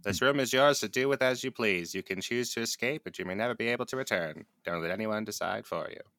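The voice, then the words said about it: Old-timey radio announcer voice. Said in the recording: “That's supposed to be my old timey radio voice”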